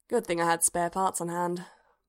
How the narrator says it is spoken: Bodhi sighed

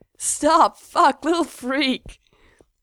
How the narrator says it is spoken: Mikey says, but he's laughing

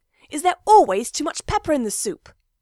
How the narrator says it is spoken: snaps crossly

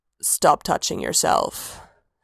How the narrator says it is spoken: Sanguine rumbled

